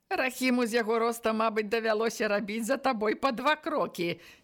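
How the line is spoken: Said while laughing. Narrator (Belarusian): не перастаючы смяяцца, сказаў Сілка хрупчык

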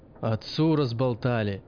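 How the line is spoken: Irritated question. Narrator (Russian): спросил раздраженно учитель

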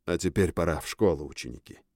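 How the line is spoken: Spoken after quiet cough. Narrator (Russian): Директор кашлянул тихо и произнес

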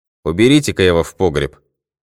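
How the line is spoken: Stern command. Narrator (Russian): строго приказал он ребятишкам

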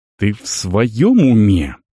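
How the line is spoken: Hushed hiss. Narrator (Russian): прошипел воин, уверившись, что их не услышат

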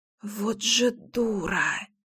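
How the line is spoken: Whisper. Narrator (Russian): прошептала

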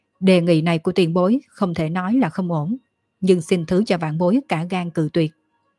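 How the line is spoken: Surprised, laughing loudly. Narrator (Vietnamese): Dương Khai lộ ra kinh ngạc, nghiêng đầu nghĩ rồi cười to

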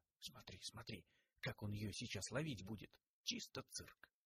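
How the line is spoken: Quiet old woman. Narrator (Russian): Сутулая бабка негромко сказала

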